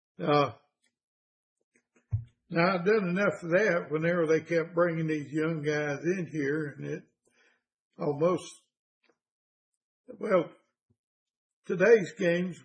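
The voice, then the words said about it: Hoarse voice. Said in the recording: “I'm a little bit hoarse for some reason.”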